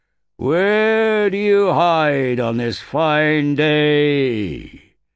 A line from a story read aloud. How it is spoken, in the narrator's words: The echoes boomed around the valleys